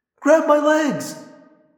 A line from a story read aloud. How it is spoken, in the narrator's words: Cassie cried